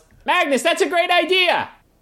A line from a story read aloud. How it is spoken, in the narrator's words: She actually yells